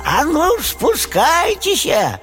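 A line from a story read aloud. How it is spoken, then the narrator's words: Ogress shouting. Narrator (Russian): людожерка закричала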